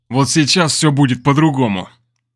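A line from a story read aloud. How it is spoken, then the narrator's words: Growled. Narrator (Russian): прорычал Герман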